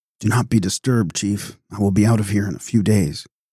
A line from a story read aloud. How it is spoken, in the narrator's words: he whispered feebly